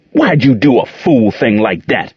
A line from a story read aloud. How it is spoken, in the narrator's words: roared